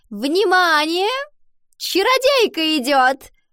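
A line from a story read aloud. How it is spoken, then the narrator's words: Shrill announcement to class. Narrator (Russian): Луана визгливо провозгласила на весь класс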